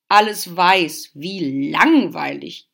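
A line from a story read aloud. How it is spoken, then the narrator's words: Croaked, raven. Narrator (German): krächzte der erste Rabe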